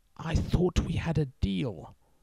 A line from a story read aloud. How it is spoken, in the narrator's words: The groom hissed